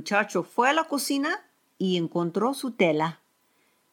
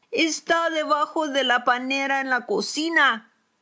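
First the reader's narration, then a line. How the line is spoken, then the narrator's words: Woman shouting. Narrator (Spanish): le gritó la señora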